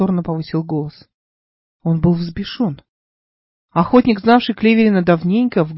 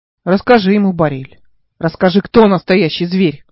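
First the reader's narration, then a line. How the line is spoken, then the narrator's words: Shouted. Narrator (Russian): выкрикнул Кливерин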